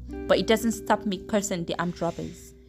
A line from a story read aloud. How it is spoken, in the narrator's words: Dad said loudly